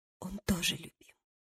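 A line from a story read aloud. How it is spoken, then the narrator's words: Muttered with shy giggle. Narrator (Russian): пробормотала она с застенчивым смешком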